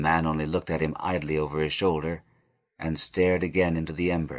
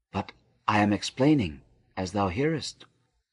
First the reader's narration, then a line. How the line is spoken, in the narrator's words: murmured